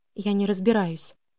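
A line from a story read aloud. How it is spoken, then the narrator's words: Quiet. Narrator (Russian): тихо сказала я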